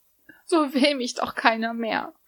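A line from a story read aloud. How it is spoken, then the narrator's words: Young woman sobbing. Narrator (German): schluchzte die junge Frau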